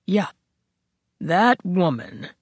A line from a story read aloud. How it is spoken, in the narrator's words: the captain intoned